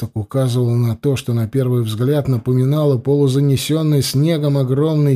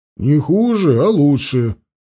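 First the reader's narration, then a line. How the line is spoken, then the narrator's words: Snorting. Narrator (Russian): хмыкнул Анил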